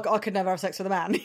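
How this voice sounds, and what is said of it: Put-on exaggerated masculine voice. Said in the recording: “That was my man voice impression”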